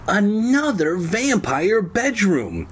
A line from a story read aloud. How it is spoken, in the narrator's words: Kara cried